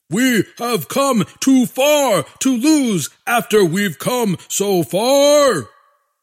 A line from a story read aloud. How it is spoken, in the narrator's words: the generals bellowed